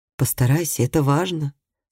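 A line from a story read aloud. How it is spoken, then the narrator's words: Calm and sad. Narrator (Russian): сказала Сесилия спокойно и печально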